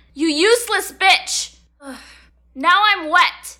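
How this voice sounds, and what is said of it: Angry yelling. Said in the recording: “Why are you yelling”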